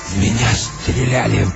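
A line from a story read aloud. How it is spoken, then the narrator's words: Hoarse wheeze. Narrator (Russian): прохрипел он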